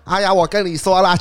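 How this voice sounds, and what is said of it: Imitated Hong Kong-sounding boss accent. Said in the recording (Chinese): “你这个福建老板怎么是香港口音的？ ... 我也学不清”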